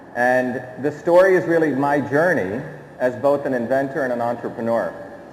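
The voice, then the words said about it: American accent. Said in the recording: “I know I have an American accent.”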